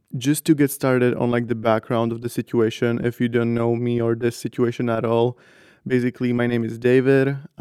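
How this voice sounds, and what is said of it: Slightly raspy voice. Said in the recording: “my voice sounds a little raspy ... I like almost borderline lost my voice ... if you just hear a little raspiness”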